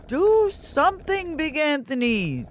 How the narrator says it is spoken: they shouted

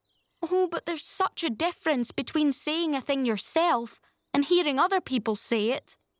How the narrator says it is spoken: wailed Anne

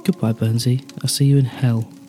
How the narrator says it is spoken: I said

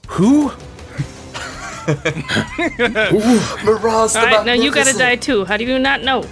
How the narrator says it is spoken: she screams

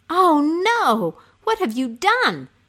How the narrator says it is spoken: cried the young woman

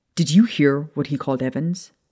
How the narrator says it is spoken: James snapped at her

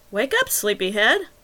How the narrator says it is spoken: Wagner chirped cheerfully

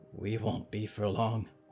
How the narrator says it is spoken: Harrow murmured

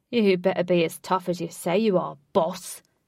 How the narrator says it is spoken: Ajax roared

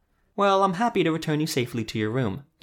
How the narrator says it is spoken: the woman said brightly

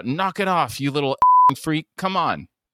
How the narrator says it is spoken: He yells out

